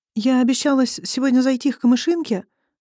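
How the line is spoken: Timid. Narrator (Russian): робко начала

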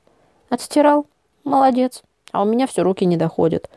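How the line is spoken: Tired. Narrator (Russian): Устало прокомментировала Оксана

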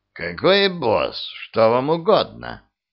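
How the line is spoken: Creaky voice. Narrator (Russian): проскрипел

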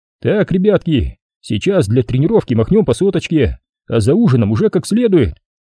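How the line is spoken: Cheerful patter. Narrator (Russian): весело приговаривал

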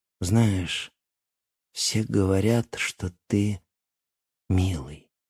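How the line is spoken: Slow. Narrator (Russian): медленно произнесла она

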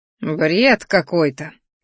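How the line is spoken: Snorting. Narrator (Russian): фыркнул

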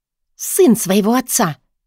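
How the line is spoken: Spat out angrily, hurt. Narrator (Russian): зло выплюнула обиженная Вита

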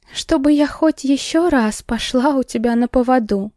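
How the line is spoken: Moaned after regaining speech. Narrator (Russian): Простонала, когда обрела, наконец, дар речи

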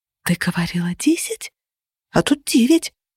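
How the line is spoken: Whisper. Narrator (Russian): Шепотом заметила я

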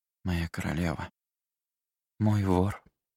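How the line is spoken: Sad reply. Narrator (Russian): грустно ответила

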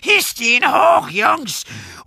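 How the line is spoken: Screaming. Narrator (German): schrie

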